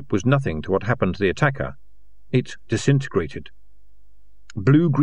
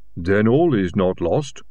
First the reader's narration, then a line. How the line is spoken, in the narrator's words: rumbled Silver